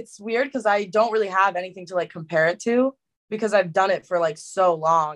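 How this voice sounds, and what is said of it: New Jersey accent. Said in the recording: “I noticed the accent ... I just found out I have a Jersey accent.”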